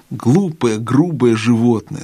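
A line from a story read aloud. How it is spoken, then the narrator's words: Plain. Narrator (Russian): сказал другой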